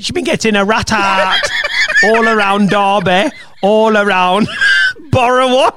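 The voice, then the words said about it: Put-on East Midlands accent, not great. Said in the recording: “Have you spent time in the East Midlands? Because it's almost like you've got the vernacular ... that accent ... it's not good. It's not good ... It's not great. It's not the worst ... accent”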